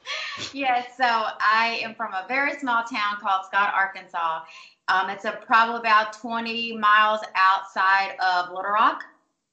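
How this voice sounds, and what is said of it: Strong Southern US accent. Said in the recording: “if you couldn't tell by the strong accent ... that's definitely a Southern woman right there”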